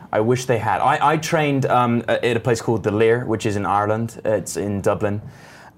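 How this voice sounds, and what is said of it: Slight put-on Irish accent. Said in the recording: “you went into a little bit of an Irish accent when you said that”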